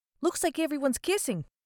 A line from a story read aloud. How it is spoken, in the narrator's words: Butters says, observing the others nervously